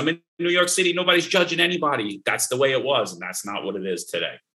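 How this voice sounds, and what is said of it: Brooklyn Italian-American New York accent. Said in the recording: “a young little Italian kid growing up in Brooklyn ... Everyone comments on my accent”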